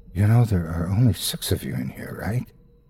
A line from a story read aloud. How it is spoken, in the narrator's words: whispers in my ear